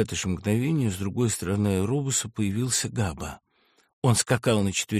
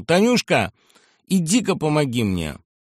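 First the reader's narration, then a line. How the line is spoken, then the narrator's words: Shout. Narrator (Russian): крикнул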